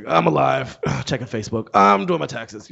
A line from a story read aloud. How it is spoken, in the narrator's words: monosyllabic, sort of disengaged grunting